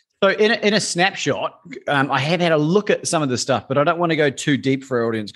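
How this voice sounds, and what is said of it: Australian accent. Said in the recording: “you're from Australia. I'm taking it by the accent.”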